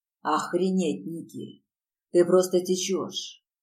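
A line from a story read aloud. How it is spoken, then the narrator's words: Hoarse rasp. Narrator (Russian): прохрипел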